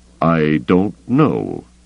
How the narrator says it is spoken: Thrawn said slowly

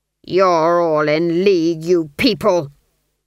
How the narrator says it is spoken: the duke snarled

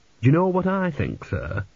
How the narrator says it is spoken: said Dill earnestly

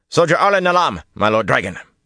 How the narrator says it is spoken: he barked

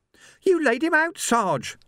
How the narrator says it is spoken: Sam squeaked

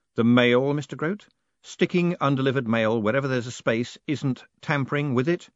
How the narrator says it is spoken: he added sternly

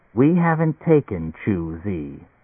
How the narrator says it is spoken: Leo said quietly

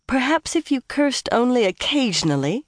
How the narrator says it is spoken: she sighed

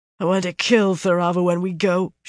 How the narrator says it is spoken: she said thickly

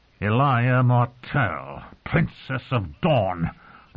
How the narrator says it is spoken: the Red Viper hissed

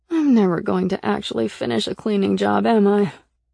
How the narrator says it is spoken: I muttered

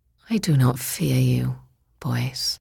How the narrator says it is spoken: said sadly

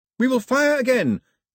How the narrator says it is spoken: Pilou yelled in the confusion

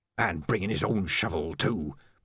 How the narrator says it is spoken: muttered Ledgy

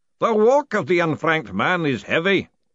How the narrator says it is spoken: the booming voice intoned

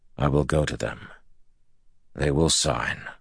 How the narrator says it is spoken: Rand said softly

